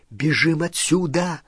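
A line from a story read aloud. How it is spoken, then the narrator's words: Whispered. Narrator (Russian): прошептала Гермиона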